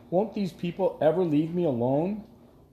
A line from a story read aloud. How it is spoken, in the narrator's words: cried to either Sasha or Flag